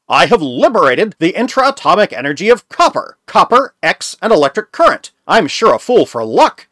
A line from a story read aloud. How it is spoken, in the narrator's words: he exclaimed